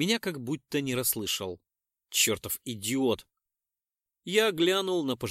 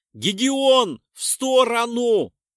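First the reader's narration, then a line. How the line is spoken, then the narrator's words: Shouted. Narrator (Russian): прокричал я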